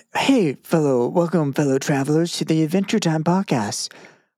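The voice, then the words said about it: Higher-pitched NPR radio-host voice. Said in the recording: “You went higher pitched with your voice. ... NPR voice”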